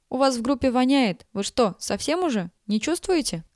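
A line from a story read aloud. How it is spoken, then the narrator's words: Loud shout close to ear. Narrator (Russian): кричала ей чуть ли не в ухо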